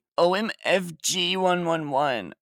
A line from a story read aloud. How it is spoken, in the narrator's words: I shouted angrily